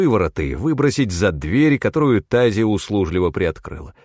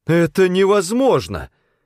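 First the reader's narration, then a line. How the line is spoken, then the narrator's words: Exclamation. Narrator (Russian): воскликнула она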